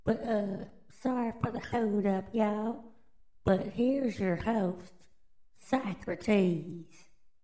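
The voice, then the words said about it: Raspy voice. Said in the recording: “my voice is kind of raspy,”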